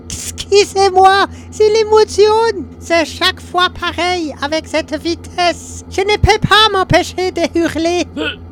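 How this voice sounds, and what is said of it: Austrian accent in French. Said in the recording (French): “Mais qu'est-ce que c'est pour un accent? ... c'est parce que j'ai beaucoup servi en Österreich.”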